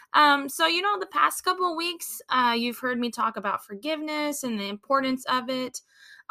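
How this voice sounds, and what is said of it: Scratchy, slightly rough voice. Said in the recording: “I'm sorry if my voice sounds scratchy. This weather, it's hot and cold. It's got me a little scratchy.”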